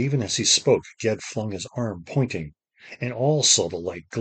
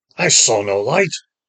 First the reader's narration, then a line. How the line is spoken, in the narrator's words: the master roared